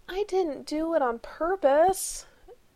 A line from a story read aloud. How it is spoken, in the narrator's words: he moaned